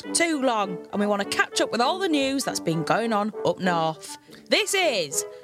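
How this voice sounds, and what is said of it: Hull northern English accent. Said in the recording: “you might be able to tell from my accent, I come from Hull.”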